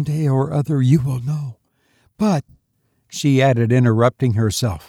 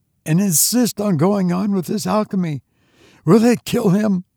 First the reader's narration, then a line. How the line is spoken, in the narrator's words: she gasped out